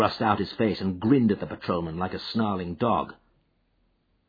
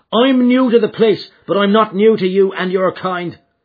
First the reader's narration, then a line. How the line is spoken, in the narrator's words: cried McMurdo in a cold fury